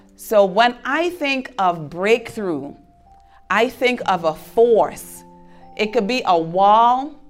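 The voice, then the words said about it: Caribbean St. Thomas accent. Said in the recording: “I'm from St. Thomas. That's why I have an accent. And it's an island in the Caribbean.”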